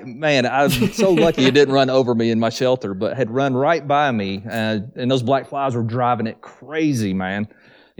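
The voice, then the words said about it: Southern US accent. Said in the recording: “judging by your accent, I'm going to guess this is the case, were you born and raised in the south ... I'm all about the southern accents”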